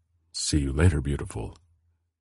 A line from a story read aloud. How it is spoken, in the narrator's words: a quietly murmured